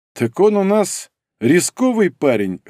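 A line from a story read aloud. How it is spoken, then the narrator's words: Amused snort. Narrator (Russian): хмыкнул император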